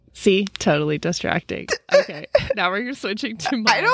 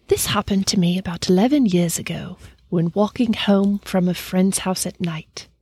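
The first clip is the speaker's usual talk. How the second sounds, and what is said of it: Put-on British accent. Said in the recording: “my British accent ... UK ... I don't know if it's a good or bad accent. It's not what I expected”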